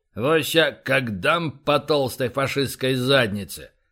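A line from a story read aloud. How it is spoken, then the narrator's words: Deep bass voice. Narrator (Russian): пробасил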